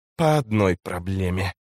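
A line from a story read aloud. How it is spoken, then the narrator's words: Hissed, sweating. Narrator (Russian): прошипел Альцин, утирая со лба капли пота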